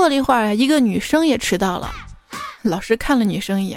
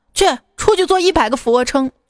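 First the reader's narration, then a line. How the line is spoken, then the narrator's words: Angry roar. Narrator (Chinese): 老师对他怒吼道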